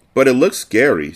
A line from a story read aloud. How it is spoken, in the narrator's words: said Ricky nervously